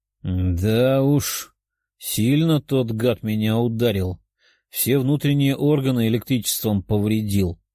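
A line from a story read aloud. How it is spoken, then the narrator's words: Demon grumbling. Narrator (Russian): ворчал демон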